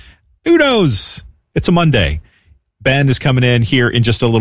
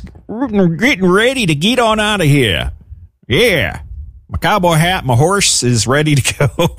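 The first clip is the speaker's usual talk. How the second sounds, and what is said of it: Put-on cowboy drawl. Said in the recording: “I don't know why I'm talking like a cowboy.”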